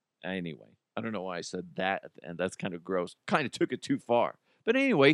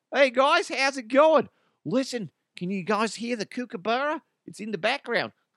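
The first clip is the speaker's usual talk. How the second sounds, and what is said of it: Put-on Australian accent. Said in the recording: “I do my Australian voice”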